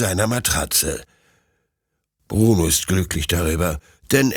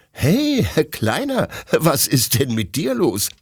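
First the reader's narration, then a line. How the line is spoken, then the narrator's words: Laughing question. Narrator (German): fragt Detlef lachend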